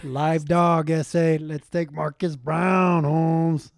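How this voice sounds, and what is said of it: Cheech-like Chicano accent. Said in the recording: “he does my accent ... He does your accent like your Cheech, though.”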